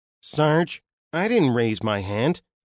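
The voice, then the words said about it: Nasal whiny character voice. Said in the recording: “Roadkill's voice, a nasal whine with a Parsons Planet accent.”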